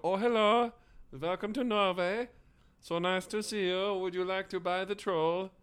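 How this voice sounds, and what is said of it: Put-on Norwegian accent. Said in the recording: “It kind of just did a Norway accent. ... I think that was a Norway accent”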